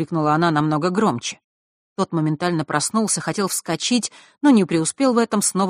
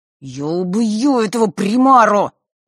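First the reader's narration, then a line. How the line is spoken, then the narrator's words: Strained groan. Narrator (Russian): простонал Фэш, делая новую попытку встать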